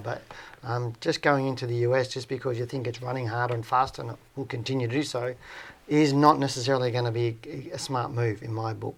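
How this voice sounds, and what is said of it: Strained, fading hoarse voice. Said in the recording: “I'm losing my voice. I've been chatting since 5:30.”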